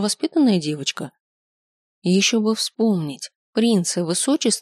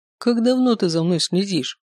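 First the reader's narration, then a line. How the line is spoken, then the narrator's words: Stern question. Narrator (Russian): спросил Венчур строго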